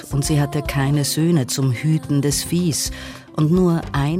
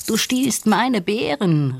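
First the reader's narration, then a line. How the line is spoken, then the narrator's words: Calling out. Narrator (German): rief Nandi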